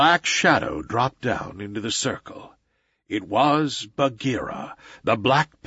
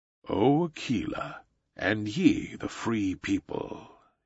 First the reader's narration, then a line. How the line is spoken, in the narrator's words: he purred